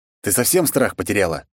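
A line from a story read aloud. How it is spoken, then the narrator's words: Stern. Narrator (Russian): строго произнёс я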